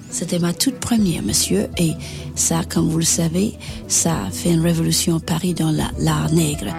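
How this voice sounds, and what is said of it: Slight foreign accent in French. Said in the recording (French): “ce petit accent, avouez qu'il est irrésistible ... des intonations étrangères”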